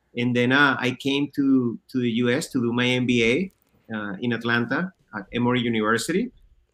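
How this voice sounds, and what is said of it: Slight Venezuelan Spanish accent. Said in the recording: “I'm originally from Caracas, Venezuela. I grew up there until I was 25 years old. That's why you probably see a little bit of an accent that I still carry with me.”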